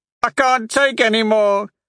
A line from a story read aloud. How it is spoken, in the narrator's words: he hollered